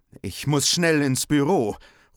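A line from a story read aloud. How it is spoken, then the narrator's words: Nervous call. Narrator (German): ruft Henry nervös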